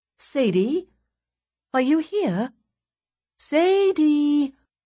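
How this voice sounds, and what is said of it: Raised, louder calling voice. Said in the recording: “raise my voice a little”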